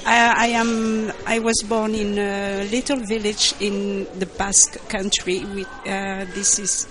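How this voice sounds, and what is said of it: French accent in English. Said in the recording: “you will learn English with a French accent”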